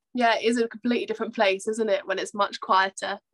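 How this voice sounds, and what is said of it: Congested voice with a cold. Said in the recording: “You probably can hear I've got a bit of a cold”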